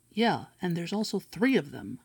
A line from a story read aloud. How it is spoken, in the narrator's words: the deep voice snapped angrily